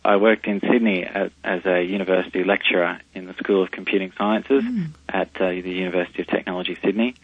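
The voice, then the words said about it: Australian accent. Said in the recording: “I'm Australian, you can probably tell from my accent”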